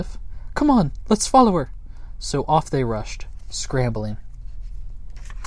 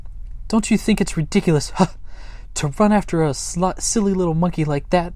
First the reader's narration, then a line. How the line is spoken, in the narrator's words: panted Sniff at last